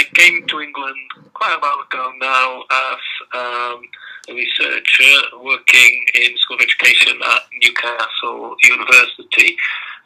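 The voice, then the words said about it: Belgian-accented English. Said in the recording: “originally I'm from um, Belgium, as you can probably that from my accent”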